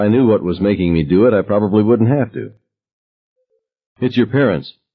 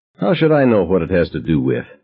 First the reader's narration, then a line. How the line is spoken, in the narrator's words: I asked him irritably